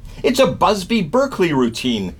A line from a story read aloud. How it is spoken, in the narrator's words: yelled a woman